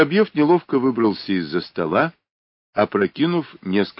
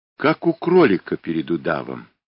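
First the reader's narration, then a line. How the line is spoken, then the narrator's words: Gloomy remark. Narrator (Russian): мрачно заметил Воробьев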